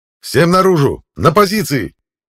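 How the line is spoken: Barked command. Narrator (Russian): Рявкнул я

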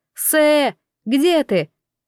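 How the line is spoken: Shouting. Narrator (Russian): Инсо ... прокричала

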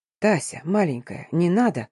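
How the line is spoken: Desperate whisper. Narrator (Russian): в отчаянии прошептал Тамир

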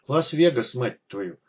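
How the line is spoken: Stunned, through gritted teeth. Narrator (Russian): процедил сквозь зубы, пораженный виденным док

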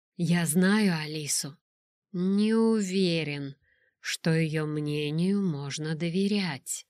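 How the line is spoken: Drawl. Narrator (Russian): протянул он

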